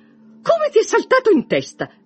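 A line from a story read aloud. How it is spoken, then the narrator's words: Exclaimed. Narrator (Italian): esclamò sua madre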